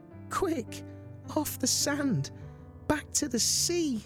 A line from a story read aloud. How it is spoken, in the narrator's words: cried the snail